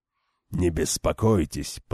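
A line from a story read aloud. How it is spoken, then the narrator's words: Muttering. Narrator (Russian): пробормотал Галган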